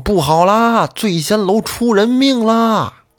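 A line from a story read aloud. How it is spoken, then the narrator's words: Shouting while running. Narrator (Chinese): 这个年轻人他是边跑口里边边喊着说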